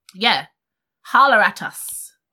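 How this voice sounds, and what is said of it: Weird put-on accent. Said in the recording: “It was like a weird accent.”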